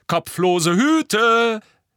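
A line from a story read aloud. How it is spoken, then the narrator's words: Calling out. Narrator (German): rief George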